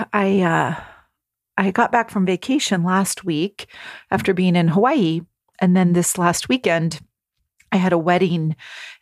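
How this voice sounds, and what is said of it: Slightly husky voice. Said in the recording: “I apologize if my voice is a little husky”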